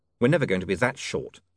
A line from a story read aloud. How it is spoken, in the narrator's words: said William quickly